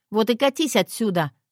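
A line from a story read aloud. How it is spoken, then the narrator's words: Shout. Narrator (Russian): крикнула ей в спину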